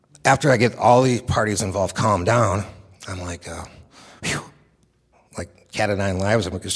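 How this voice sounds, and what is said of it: Usual voice. Nothing is said of it.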